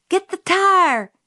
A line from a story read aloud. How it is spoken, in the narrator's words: Jim hollered